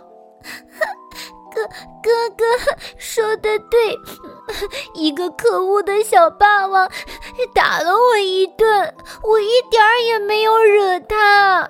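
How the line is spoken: Sobbing. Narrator (Chinese): 她哽哽咽咽地说

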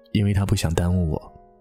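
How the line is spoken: Faint smile, resigned. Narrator (Chinese): 他淡淡的笑了一下，略带无奈的说了一句

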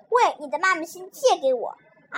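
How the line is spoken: Plain. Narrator (Chinese): 阿志说

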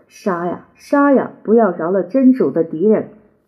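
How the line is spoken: Triumphant, echoing. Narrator (Chinese): 他那胜利的声音在大马士革的街头回响

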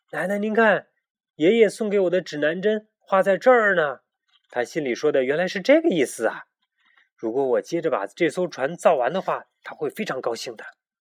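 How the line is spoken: Excited exclamation. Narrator (Chinese): 他突然激动的叫了起来

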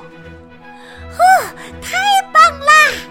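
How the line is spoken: Loud shout. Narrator (Chinese): 希拉大喊

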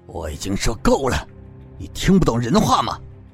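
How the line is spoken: Angry roar. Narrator (Chinese): 他吼道

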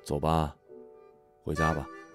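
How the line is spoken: Soft comforting voice. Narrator (Chinese): 轻声安慰

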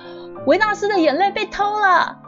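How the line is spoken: Guard shouting. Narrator (Chinese): 有个保全大喊说

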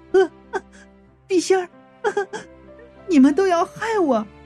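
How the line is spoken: Laughing, childlike voice. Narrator (Chinese): 却又笑了，用孩子一样的声音就说到了

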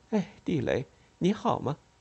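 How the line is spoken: Forced smile. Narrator (Chinese): 她强笑了一下，说

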